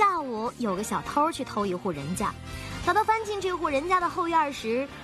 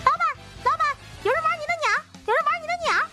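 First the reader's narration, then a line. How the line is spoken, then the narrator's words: Loud parrot squawk. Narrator (Chinese): 这只鹦鹉实在忍不住了，大声地叫道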